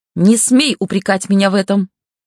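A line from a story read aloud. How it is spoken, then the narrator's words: Very loud exclamation. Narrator (Russian): воскликнула Равена так громко, что я едва не подпрыгнула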